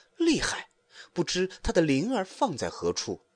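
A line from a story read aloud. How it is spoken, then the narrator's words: Sighing. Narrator (Chinese): 行者叹道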